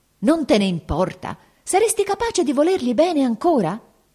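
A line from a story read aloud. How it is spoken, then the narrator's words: Shout. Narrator (Italian): egli gridò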